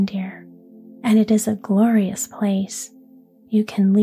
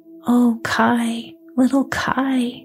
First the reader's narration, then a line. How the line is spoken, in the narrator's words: sighed Gerda